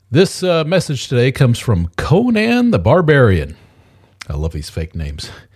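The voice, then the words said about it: Voice sounds sick from a cold. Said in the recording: “apologize for my voice. Got a cold.”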